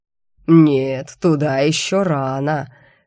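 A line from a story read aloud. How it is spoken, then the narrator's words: Sepulchral demon voice. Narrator (Russian): все так же загробным голосом прокомментировал демон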